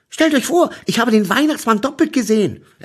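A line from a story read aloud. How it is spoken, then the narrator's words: Excited telling. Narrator (German): erzählte ich ihnen gleich aufgeregt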